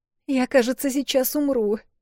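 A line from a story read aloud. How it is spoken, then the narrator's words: Whimper, holding back tears. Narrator (Russian): проскулила Эл, сдерживая слезы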